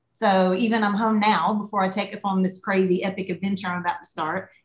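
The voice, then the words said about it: Thick Southern US accent. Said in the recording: “my accent is different because, yeah, I'm Southern, but I don't sound like I'm from Texas and I don't sound like I'm from Charleston ... my accent got more thick ... your accent just gets heavier and heavier”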